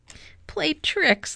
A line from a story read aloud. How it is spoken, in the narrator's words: laughed the cat